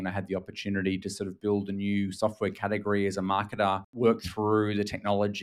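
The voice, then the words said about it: Australian accent. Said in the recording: “may have guessed from my accent that I'm actually Australian”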